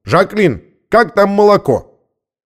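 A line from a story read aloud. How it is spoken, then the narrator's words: Man shouting. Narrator (Russian): Бородатый мужчина крикнул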